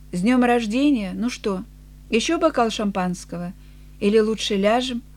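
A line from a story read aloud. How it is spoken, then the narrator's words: Sober voice. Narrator (Russian): она трезвым голосом сказала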